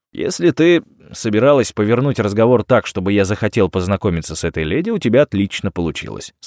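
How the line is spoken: Plain. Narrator (Russian): сказал я

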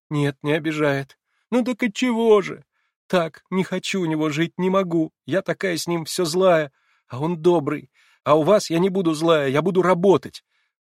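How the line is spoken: Hysterical sobbing. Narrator (Russian): проговорила она, рыдая, как в истерике

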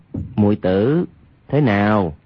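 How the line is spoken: Lowered voice. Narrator (Vietnamese): Hoàng Nhan Khang hạ giọng nói

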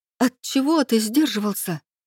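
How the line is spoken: Nervous exclamation. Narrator (Russian): Нервно воскликнула я

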